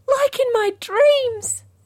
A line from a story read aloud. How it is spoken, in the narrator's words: exclaimed Jessie